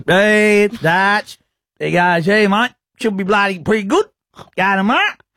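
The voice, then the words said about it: Imitates another person's voice. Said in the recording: “That's a pretty good Smith Tech impression, if you ask me.”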